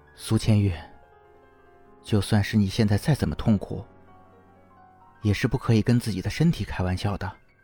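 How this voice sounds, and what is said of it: Soft, quiet murmuring voice. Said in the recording (Chinese): “温柔的握住她的手，动作轻柔……小声呢喃着”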